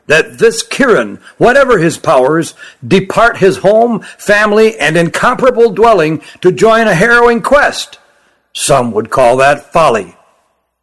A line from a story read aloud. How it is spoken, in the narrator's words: said Spekeren, his voice rising